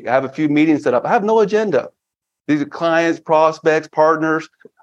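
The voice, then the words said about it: Australian accent. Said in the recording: “I love the Australian accent... You can see with the Australian accent”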